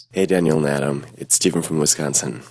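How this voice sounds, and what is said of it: Unusually sexy-sounding voice. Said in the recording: “He sounds sexy. ... he doesn't normally sound sexy.”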